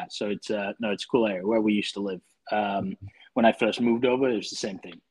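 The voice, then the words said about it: Slight northern English accent. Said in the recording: “I can sense a little bit of a northern accent. So you're from the UK?”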